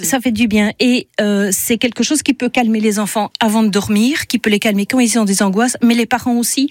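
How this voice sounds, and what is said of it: Charming slight Belgian French accent. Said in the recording (French): “ce petit accent belge ravissant”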